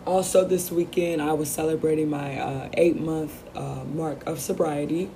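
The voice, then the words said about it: Voice sounds rough. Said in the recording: “You have to excuse my voice this week. ... So yes, excuse my voice.”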